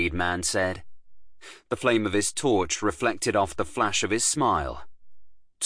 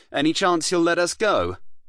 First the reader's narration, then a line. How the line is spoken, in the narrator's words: I called out to the lead man